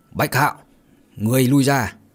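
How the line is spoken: Sect leader's sharp shout. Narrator (Vietnamese): Trưởng môn bèn quát

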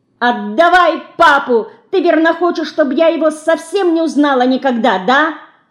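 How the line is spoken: Shouting again. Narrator (Russian): Снова закричала Динка

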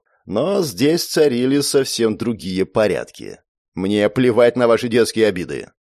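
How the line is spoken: Near growl. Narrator (Russian): почти прорычал наш встречающий

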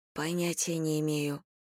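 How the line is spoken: Whisper. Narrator (Russian): прошептала я

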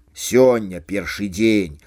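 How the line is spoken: Grumbling. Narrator (Belarusian): буркнуў Гера

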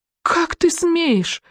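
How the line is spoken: Indignant outburst, then sobbing. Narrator (Russian): взвилась Галя и разрыдалась

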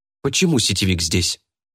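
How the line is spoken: Irritated question. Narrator (Russian): Интересуется раздраженно

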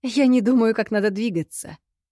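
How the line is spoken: Laughing. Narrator (Russian): рассмеялась в ответ

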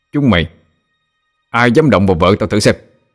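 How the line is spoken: Angry shout. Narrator (Vietnamese): Cậu giận dữ quát lên

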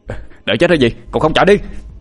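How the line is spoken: Shouting man. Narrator (Vietnamese): Anh hét lên

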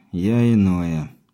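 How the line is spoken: Heavy sigh. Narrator (Russian): тяжко вздохнул Виктор

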